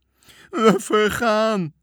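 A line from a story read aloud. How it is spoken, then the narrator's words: Shrieking. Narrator (Dutch): gilde Bange Toontje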